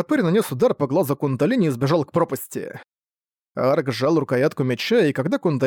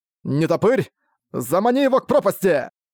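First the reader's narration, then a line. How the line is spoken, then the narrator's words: Shouted command. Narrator (Russian): прокричал Арк команду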